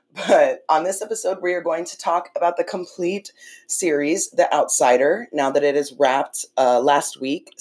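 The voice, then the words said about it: Rough, sick-sounding voice. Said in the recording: “I've been a little sick, and that's why my voice sounds like shit ... it's a flu”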